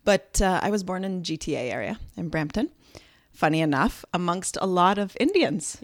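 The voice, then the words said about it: Mixed, hard-to-place accent. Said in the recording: “I have this funny accent that I don't hear, but is a bit of a mixture of all those years of not living on Canadian soil”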